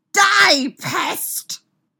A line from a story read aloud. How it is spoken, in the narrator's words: He yelled